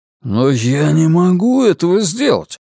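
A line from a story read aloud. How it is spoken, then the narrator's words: Astonished exclamation. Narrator (Russian): изумленно воскликнул Ларри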